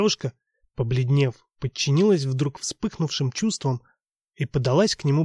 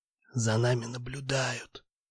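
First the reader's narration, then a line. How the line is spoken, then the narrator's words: Shocked, strained whisper. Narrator (Russian): Словно искра пронзила обоих, он сумел тихо выдавить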